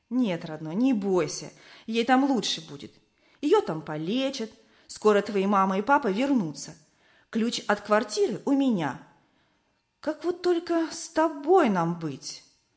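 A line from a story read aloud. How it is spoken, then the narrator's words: Gentle woman caretaker. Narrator (Russian): Дворничиха тетя Люба ласково сказала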